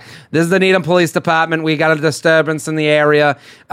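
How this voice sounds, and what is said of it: Thick Boston accent. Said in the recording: “it's like this thick Boston accent”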